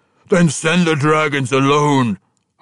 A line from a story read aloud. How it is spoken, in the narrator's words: Hartusk roared